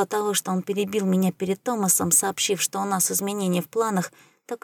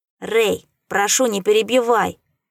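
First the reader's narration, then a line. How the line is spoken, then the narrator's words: Irritated interruption. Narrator (Russian): Я раздраженно оборвал Цварга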